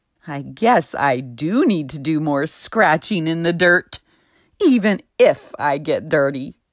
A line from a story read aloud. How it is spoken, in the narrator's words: Charlie the chicken laughed